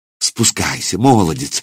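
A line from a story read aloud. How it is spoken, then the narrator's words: Woman pleading. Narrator (Russian): взмолилась женщина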